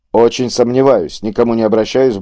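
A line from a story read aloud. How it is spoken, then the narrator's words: Grumbled. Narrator (Russian): буркнул Штрайх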